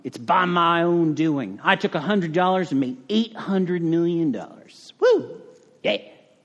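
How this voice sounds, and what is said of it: Put-on unidentified accent, not Texan. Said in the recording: “I don't know what kind of accent that is, but it's definitely not Texan.”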